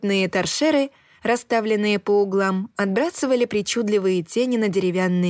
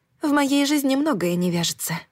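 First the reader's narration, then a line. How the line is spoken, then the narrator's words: Sighing. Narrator (Russian): вздохнула я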